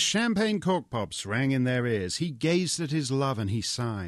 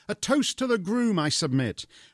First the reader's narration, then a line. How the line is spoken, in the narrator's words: Michelle gaily cried